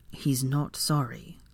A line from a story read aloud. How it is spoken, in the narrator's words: Draco said softly to Molly